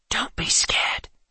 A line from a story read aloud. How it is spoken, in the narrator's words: the boy whispered